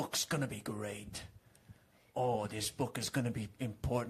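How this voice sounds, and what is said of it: Usual voice. Nothing is said of it.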